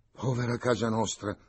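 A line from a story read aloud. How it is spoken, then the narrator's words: Sighing. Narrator (Italian): aggiunge con un sospiro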